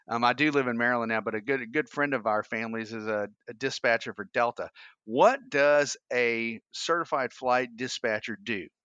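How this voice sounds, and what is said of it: Georgia Southern US accent. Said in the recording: “You can probably tell I've got a Georgia accent.”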